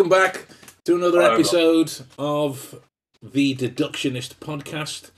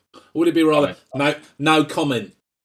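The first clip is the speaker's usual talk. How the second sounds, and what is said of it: Flagrant put-on Essex accent. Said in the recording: “that's my flagrant attempt at an Essex accent”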